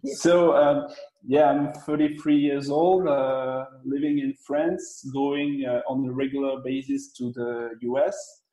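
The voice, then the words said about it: Non-native English accent. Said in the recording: “This is my first interview in English, actually ... sorry for my English and for my accent ... Your accent is beautiful.”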